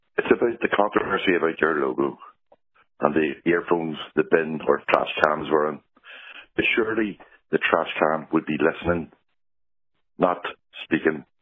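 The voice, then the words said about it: Voice affected by a cold. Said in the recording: “Excuse my voice. I got a bit of a cold.”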